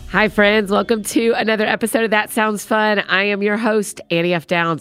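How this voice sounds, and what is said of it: Deeper voice, not her usual. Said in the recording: “I know I don't sound just like myself, but I have a little bit of a cold, and it's given me a little bit of a deeper voice”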